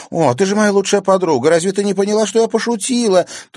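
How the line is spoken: Rapid chattering. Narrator (Russian): затараторила Луиза

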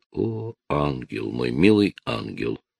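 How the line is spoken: Whispered. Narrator (Russian): прошептал он

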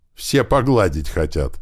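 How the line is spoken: Laughing radio voice. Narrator (Russian): засмеялась рация

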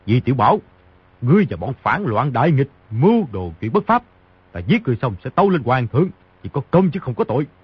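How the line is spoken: Angry shout. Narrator (Vietnamese): Ngô Tâm Quế giơ tay phải lên, giận dữ quát

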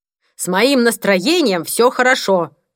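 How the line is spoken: Shout from another room. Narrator (Russian): крикнул Пол из спальни

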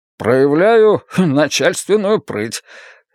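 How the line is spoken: Short chuckle. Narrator (Russian): Стасов коротко хохотнул

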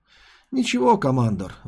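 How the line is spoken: Sighing. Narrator (Russian): вздохнул Кассар Форш

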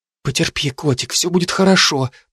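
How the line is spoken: Exhausted whisper. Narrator (Russian): прошептала девушка, сама изнемогая от усталости

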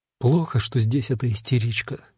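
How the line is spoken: Quiet whisper. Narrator (Russian): тихонько прошептала Инга

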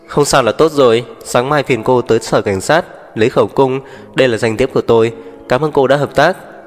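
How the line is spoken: Surprised laugh. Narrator (Vietnamese): Tú Khải không ngờ cô ấy lại nói như vậy, bật cười

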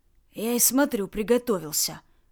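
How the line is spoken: Sullen grunt. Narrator (Russian): хмуро буркнул Ред

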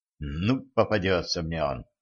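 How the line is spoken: Muttered. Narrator (Russian): пробормотал Дэн

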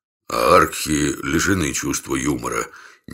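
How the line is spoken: Uncertain reminder. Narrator (Russian): неуверенно напомнил я

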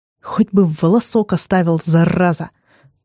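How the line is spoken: Disbelieving hiss under breath. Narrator (Russian): прошипел себе под нос, неверяще

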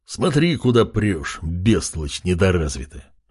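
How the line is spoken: Growled. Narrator (Russian): рыкнул он

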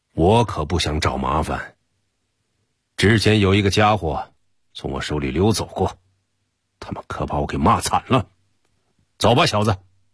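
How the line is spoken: Low angry growl. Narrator (Chinese): 低声怒吼道

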